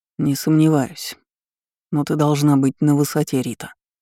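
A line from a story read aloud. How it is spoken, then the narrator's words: Cold. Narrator (Russian): холодно произнес Данилов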